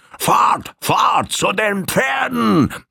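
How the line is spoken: Bellowing voice. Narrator (German): eine Stimme rufen oder vielmehr brüllen

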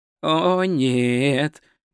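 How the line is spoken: Moaning. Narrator (Russian): простонал он

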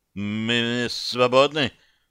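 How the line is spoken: Timid babble. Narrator (Russian): пролепетал граф Аврелий

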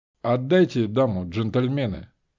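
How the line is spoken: Calm. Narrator (Russian): сказал спокойно

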